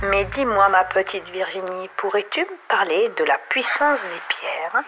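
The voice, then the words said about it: Sing-song southwestern French accent. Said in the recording (French): “Cet accent du sud-ouest euh, chantant là”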